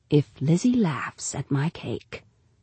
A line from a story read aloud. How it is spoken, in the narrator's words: Janie's mother whispered to her